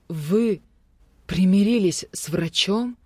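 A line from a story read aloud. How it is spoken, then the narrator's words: Horrified woman's mutter. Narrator (Russian): в ужасе пробормотала одна из женщин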